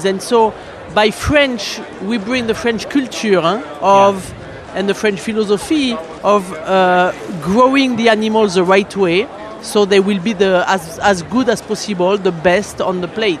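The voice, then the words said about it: French accent. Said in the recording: “my accent is the only thing that's French”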